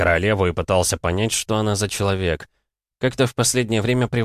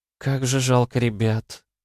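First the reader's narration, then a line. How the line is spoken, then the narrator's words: Sad young woman. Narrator (Russian): грустно произнесла девушка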